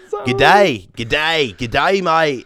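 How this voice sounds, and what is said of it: Put-on Australian accent. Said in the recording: “I was like working on my Australian accent in my head”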